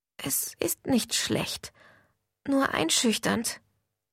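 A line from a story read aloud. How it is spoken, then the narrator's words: Muttered. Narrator (German): murmelte ich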